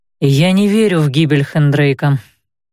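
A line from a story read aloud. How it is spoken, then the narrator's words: Calm explanation. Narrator (Russian): пояснил он спокойно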